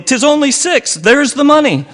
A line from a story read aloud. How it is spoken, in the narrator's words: cried Billy